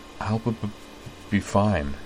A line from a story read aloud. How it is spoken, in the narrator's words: replied quietly